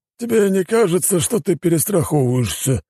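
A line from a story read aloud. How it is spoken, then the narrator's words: Lazy drawl. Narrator (Russian): лениво потянулся Людвиг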